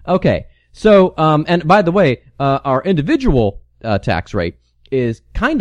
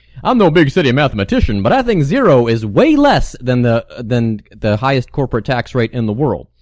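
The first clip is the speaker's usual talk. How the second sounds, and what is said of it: Southern lawyer character voice. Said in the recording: “doing an impression of my friend Jim Lugers ... He played a southern lawyer”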